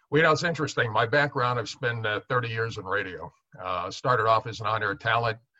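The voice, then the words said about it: Distinctive deep radio-announcer voice. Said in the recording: “has a unique voice. He's got a radio voice.”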